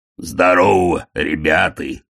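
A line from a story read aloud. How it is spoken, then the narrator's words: Booming voice. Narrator (Russian): прогудел Детрит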